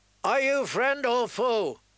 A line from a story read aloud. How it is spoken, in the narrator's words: Black Lauren bellowed down